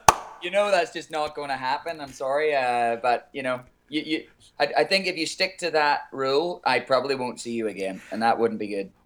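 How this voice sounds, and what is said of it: Non-native accent. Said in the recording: “You still have your accent ... how cute your accent is”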